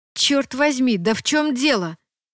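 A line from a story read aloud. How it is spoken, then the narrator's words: Exclaiming. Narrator (Russian): воскликнул Тейлор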